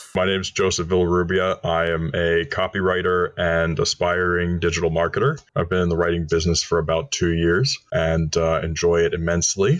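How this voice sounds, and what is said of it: Radio-style voice. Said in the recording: “you do have a radio voice”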